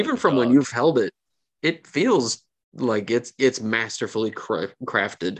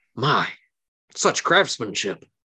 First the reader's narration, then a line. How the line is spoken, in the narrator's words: the captain seems to like openly gasp and says